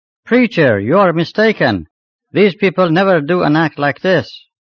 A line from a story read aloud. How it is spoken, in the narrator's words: From the middle of the crowd, Molla Reza shouted